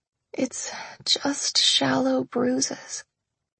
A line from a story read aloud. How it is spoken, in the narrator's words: I croaked